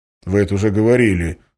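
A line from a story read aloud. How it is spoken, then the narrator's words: Grumbled. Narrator (Russian): буркнул Валентин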